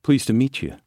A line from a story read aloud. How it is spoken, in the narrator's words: I said harshly